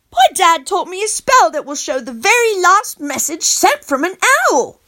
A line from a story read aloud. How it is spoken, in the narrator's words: I chirped up proudly